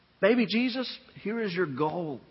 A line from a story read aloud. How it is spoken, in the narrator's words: he said